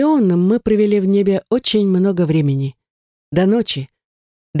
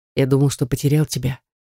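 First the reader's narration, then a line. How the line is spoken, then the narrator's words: Quiet, husband. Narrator (Russian): тихо произнес муж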